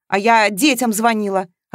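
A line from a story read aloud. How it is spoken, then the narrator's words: Snapped. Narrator (Russian): огрызнулась Маша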